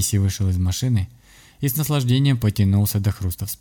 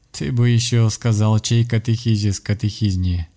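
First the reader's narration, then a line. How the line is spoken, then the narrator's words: Laughing. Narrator (Russian): рассмеялся священник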